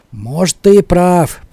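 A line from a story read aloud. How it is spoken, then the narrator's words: Grumbling. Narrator (Russian): проворчал рыбак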